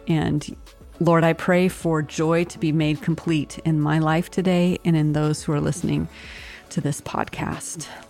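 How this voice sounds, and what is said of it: Rough, scratchy voice. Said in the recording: “my voice is a little bit cranky today”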